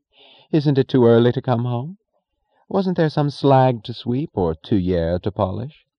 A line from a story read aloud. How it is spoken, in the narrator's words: she said in a bright tone of amusement